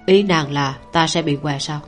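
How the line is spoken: Soft amused laugh. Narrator (Vietnamese): Cảnh Nhật cong khóe môi cười khẽ một cái

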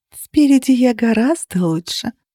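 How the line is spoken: Seductive purr. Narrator (Russian): промурлыкала я, имитируя манеру проституток

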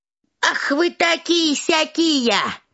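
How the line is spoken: Old woman shouting. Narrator (Russian): закричала старуха

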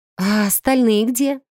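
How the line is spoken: Breathless exhale. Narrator (Russian): выдохнула я

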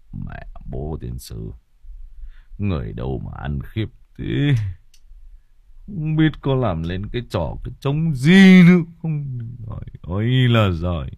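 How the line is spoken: Old man sighing mutter. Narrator (Vietnamese): Ông Hùng ngồi tiếp khách mà cũng thở dài lẩm bẩm

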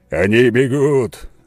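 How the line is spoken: Shouted. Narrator (Russian): закричал Скалан

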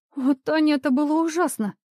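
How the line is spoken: Whimpering like lost little girl. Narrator (Russian): Юля захныкала, словно потерявшаяся маленькая девочка

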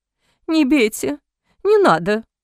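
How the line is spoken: Pleading. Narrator (Russian): взмолился беглец

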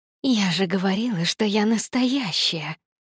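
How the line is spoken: Hissing. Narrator (Russian): прошипела Никс

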